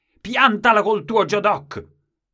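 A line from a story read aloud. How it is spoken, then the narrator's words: Brusque shout, grandmother. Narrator (Italian): mia nonna gli gridò bruscamente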